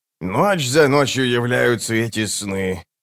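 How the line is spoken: Moan. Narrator (Russian): простонал Круп

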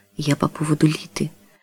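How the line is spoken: Quiet. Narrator (Russian): тихо произнес

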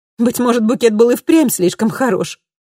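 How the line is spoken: Ironic exclamation. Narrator (Russian): с иронией воскликнула Камилла

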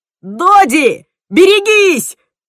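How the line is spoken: Alarmed yell. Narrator (Russian): заорал Тим, когда дворецкий снова схватился за ножницы

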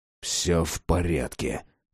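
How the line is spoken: Hiss to himself. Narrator (Russian): прошипел себе Ворон

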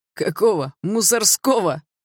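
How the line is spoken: Louder guffawing. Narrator (Russian): еще громче расхохотался второй

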